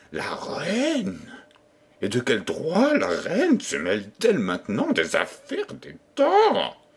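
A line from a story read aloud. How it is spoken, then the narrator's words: Retorted with a sneer. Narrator (French): repartit en ricanant Renardino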